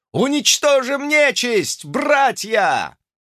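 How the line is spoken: Wounded demon's roar. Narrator (Russian): взревел явно раненый бес

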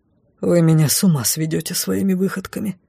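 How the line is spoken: Muttering into silence. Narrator (Russian): пробормотал лорд Лайс, нарушив воцарившуюся в коридоре тишину

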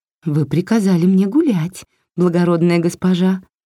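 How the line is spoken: Sugary sweet voice. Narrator (Russian): сладким голоском ответила Варя

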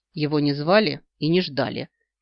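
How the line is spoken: Snorting. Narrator (Russian): фыркнула я

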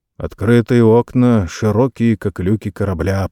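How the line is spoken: Muttering. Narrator (Russian): пробормотал

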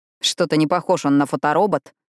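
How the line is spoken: Scornful snort. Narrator (Russian): фыркнул Рави

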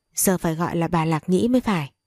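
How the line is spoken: Smiling. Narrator (Vietnamese): An Ly mỉm cười nói

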